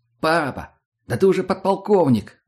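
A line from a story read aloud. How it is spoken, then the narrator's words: Exclamation. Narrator (Russian): воскликнул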